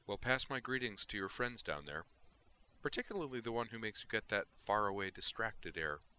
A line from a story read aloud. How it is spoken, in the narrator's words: he added cheerfully